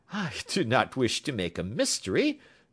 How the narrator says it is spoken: said he, laughing

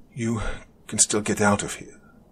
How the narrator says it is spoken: he softly spoke

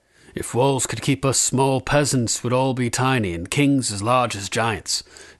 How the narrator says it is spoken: said Ser Jorah

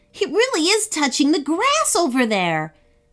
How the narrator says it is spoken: shouted Seth

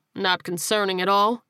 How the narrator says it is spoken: the detective replied dryly

